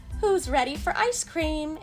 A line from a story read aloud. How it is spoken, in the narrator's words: Aunt May asked merrily